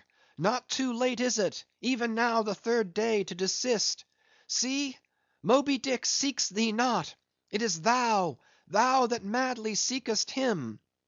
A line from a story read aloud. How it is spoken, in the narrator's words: cried Starbuck